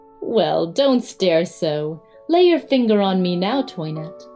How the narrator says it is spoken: a voice which laughed and said

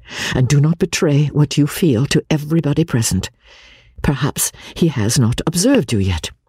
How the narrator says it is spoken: cried Elinor

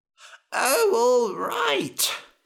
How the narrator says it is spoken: he groaned

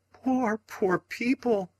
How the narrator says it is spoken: cried Mrs

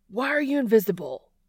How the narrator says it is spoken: he shouts

